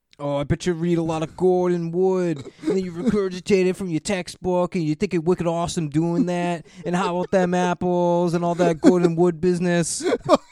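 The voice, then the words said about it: Put-on Boston accent. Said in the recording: “the Boston accent ... he does a good Boston accent”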